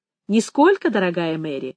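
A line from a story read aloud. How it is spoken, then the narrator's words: Laughing. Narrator (Russian): он засмеялся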